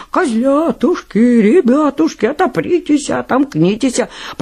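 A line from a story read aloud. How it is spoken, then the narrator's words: Wolf singing in thin voice. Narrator (Russian): А волк и запел тоненьким голоском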